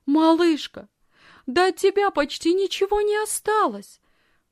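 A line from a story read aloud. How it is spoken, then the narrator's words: Excited exclamation. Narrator (Russian): взволнованно воскликнула она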